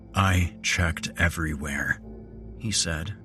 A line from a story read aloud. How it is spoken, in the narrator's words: he said, keeping his voice level